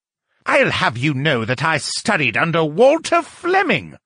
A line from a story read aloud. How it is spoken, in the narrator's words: Lucian shrieked